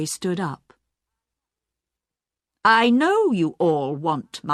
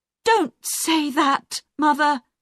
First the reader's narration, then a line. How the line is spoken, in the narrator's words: Jackie cried